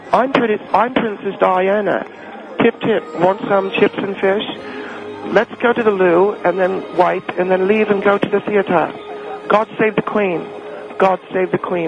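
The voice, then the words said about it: Put-on British accent. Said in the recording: “I do it in a very British accent”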